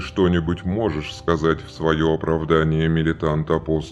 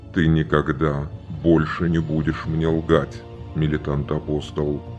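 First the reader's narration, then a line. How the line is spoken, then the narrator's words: Even, flat voice. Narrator (Russian): ровным голосом произнес он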